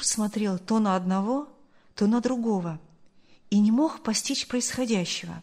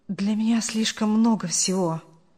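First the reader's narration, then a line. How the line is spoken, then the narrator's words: Young man muttering. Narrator (Russian): пробормотал молодой человек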